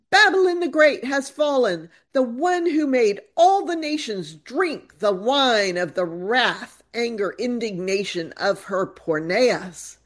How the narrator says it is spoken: a second angel cries

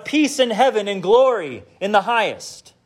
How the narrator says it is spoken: They also shout

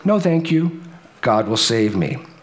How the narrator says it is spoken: the woman calmly responded, yet again

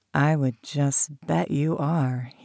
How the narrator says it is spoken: purred, deep and low

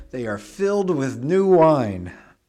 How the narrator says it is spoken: others sneered and said

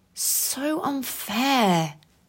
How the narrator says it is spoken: Roxy grumbled and let out a sigh

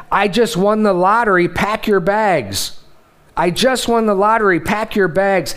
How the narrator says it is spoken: a man began jumping up and down for joy while yelling

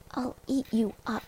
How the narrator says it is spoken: Max mumbled into her cardigan

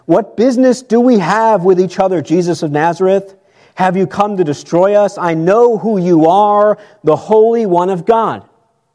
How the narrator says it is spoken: a man with an unclean spirit, and he cried out saying

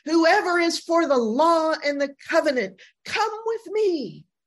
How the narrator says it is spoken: he shouts

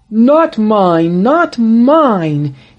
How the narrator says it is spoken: he exclaimed

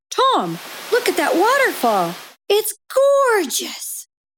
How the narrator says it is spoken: Teresa gasped

